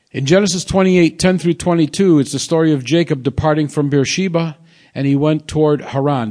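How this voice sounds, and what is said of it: Speaks with a noticeable accent. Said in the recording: “Just pardon my accent.”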